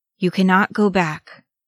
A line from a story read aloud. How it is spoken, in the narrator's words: the captain of Gondor said, hoarsely